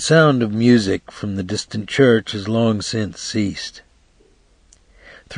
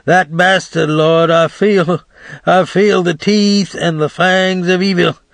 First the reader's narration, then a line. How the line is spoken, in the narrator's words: old Doc Hines cried aloud